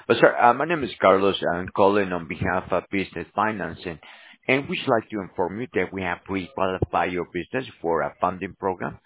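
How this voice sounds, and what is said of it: Voice affected by a cold. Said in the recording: “Sorry about my voice, catching a little cold.”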